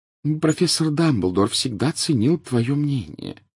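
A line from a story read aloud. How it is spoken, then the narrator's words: Gentle, affectionate tone. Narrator (Russian): ласково произнесла профессор МакГонагалл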